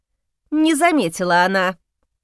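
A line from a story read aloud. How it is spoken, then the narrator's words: Scornful snort. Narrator (Russian): фыркнула княгиня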